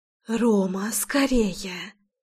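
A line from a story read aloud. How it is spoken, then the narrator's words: Urgent whisper. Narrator (Russian): Зашептала я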